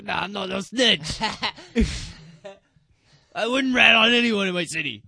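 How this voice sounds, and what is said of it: Fake put-on accent. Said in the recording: “That was a fake accent.”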